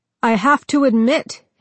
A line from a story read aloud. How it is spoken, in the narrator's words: he shouted